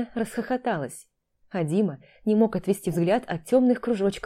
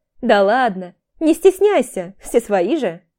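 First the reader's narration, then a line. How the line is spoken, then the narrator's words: Laughing. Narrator (Russian): Алена опять рассмеялась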